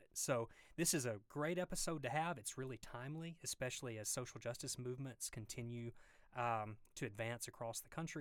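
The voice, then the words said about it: Deep Southern American accent. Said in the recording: “you can probably tell from the deep Southern accent”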